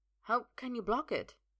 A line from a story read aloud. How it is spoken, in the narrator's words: Balinor sighs